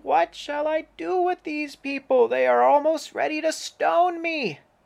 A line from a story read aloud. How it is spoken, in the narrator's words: Moses cried out to the Lord, saying